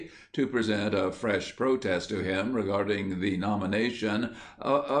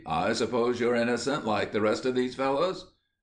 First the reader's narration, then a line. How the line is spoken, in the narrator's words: asked the governor impatiently